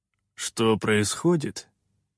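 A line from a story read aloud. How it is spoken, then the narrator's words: Gloomy, reluctant miner. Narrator (Russian): мрачно отозвался рудокоп, неохотно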